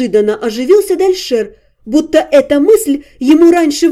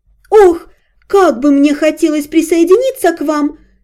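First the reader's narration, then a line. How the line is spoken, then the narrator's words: Dreamy exclamation. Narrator (Russian): Мечтательно воскликнула Ясминия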